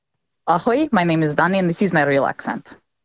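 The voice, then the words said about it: Put-on Eastern European-sounding accent. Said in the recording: “Ooh, Scottish, I presume. ... No, that sounded Eastern Bloc to me. ... Eastern European, perhaps”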